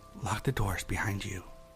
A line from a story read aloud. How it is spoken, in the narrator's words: quietly whispered